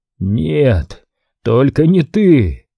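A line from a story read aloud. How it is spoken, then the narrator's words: Hoarse rasp. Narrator (Russian): прохрипел Ариман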